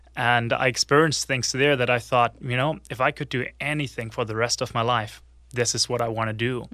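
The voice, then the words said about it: German accent. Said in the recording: “the accent is German”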